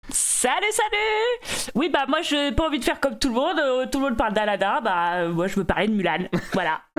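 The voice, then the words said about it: Put-on rustic French country accent. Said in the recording (French): “C'est quoi cet accent, l'accent campagnard là?”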